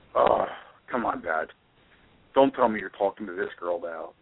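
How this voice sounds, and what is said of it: Deep voice. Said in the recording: “he's got a deep voice”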